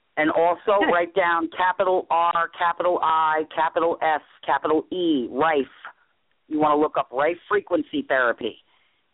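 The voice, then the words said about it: New York accent. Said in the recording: “I'm from New York, if you can tell by the accent”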